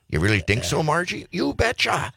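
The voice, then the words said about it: Put-on Fargo-style Minnesota accent. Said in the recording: “That's my Fargo impersonation. ... That's not bad.”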